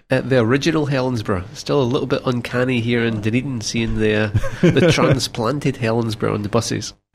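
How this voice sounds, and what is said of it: Scottish accent. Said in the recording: “accent isn't from around here ... Originally from the west coast of Scotland.”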